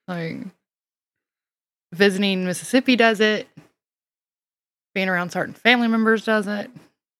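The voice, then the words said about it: Strong Southern US accent. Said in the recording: “sounds not girly enough. And southern, very southern ... my southern accent”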